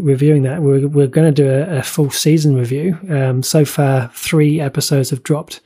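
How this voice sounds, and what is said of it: Usual voice. Nothing is said of it.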